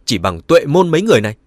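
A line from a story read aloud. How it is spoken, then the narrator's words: Very angry. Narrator (Vietnamese): Dương Dani rất tức giận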